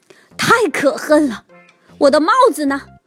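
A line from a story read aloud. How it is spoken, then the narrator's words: Roaring. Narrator (Chinese): 熊爸爸咆哮起来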